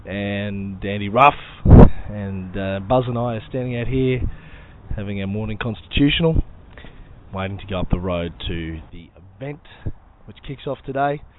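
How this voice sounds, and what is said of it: Voice sounds sick and unwell. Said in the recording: “As you can probably tell from my voice, I don't feel any better than I did yesterday.”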